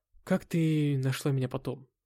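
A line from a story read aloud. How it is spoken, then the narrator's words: Gloomy voice. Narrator (Russian): спросил мрачным голосом я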